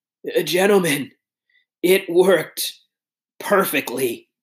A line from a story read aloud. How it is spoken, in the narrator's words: gasped